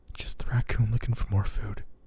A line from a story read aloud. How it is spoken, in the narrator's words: I whispered to myself